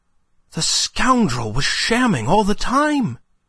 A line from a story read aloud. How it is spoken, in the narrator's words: exclaimed Climene